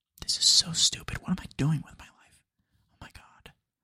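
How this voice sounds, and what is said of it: Whispering. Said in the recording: “I'm going to name this episode the World's Quietest Podcast ... Because I'm whispering.”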